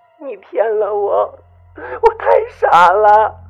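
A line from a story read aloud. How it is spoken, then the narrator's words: Faint, broken tearful woman's voice. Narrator (Chinese): 那些时断时续的声音像从水底冒上来一样，一会儿是个女人带着哭腔说着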